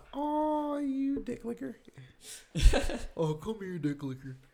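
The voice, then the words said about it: Cute, affectionate voice. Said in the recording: “in a cute voice”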